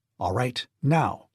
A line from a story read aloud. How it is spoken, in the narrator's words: he said sharply